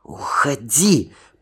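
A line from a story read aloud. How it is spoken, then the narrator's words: Hissed. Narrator (Russian): прошипела она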